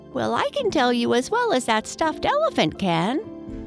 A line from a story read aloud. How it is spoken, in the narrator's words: went on the squeaky sawdust doll